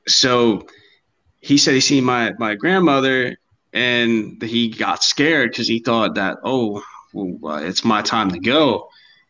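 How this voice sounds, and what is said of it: Thick regional accent. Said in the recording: “my accent's a little yeah, thick.”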